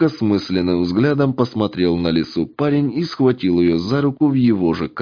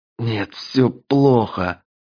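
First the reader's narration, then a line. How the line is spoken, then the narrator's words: Wheezing, teeth chattering. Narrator (Russian): клацая зубами, просипел кот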